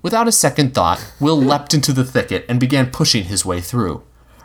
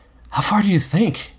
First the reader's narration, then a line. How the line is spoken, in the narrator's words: he asked Robbie eagerly